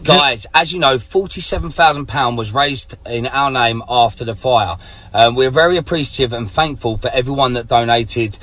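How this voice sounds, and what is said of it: Very thick English accent. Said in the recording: “Very thick English accent.”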